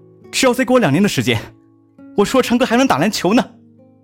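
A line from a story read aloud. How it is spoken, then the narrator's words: Loud shout. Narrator (Chinese): 青蛙大声的喊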